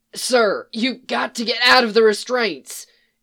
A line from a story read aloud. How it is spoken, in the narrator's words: Eli yelled over the still shrieking alarm